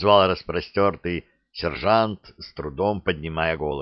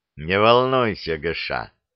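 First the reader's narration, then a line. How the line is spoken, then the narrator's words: Gloomy reassurance. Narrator (Russian): мрачно заверил Шут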